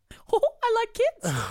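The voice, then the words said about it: Mickey Mouse cartoon character voice. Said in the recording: “There's your character voice. ... You do such a good Mickey and Minnie.”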